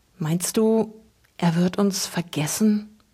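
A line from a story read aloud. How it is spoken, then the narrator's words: Barely audible whisper. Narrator (German): wisperte Luke kaum hörbar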